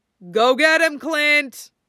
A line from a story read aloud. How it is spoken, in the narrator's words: Steve yelled encouragingly